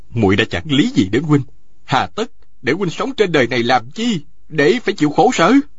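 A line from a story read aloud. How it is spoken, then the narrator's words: Resentful. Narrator (Vietnamese): Tào Vân Kỳ hậm hực nói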